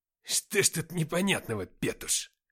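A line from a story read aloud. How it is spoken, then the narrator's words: Surprised, malicious sneer. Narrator (Russian): удивился Никита, злобно ухмыляясь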